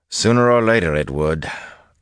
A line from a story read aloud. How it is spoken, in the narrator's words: Rand said dryly